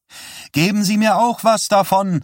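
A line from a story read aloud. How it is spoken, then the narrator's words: Calling out. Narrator (German): rief er Chuck Spire zu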